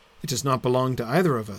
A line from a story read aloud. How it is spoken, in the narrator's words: said Trotter